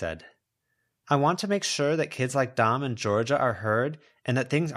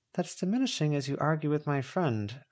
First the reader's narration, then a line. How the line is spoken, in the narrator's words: Verona murmured